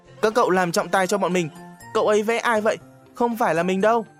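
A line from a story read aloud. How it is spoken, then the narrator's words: Shrieking. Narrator (Vietnamese): Tịn Mũi thét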